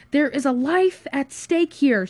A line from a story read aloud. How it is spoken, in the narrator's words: screamed Josh